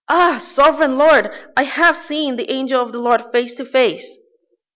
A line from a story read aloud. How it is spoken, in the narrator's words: he exclaimed